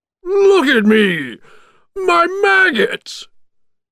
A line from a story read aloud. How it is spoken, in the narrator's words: cried Oogie Boogie